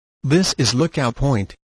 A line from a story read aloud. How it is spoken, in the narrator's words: said Nob